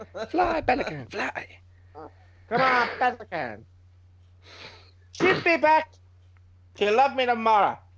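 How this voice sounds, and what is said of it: Latino accent with Welsh tinge. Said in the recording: “a Welsh Latino accent”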